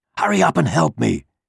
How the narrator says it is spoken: he hissed at the mouse

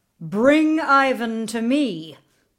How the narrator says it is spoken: the Tsar thundered

